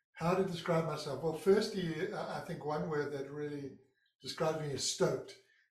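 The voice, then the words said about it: Non-American accent. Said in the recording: “As you can hear by my accent, I'm not a born American.”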